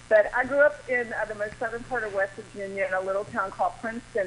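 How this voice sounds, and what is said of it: Southern American accent. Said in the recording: “As you can hear, I'm from the South ... I do hear your Southern accent”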